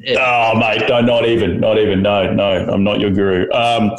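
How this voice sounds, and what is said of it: Australian accent. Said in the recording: “I went to Australia ... because of my accent”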